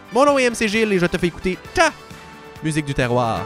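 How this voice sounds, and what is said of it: Québécois French accent. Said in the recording (French): “Avec l'accent québécois. Évidemment!”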